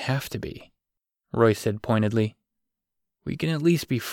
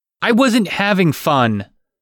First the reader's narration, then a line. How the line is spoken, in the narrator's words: Grant cried